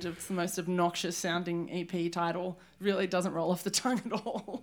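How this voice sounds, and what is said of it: Kentucky accent. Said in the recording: “If you can't tell by her accent, she's from Kentucky.”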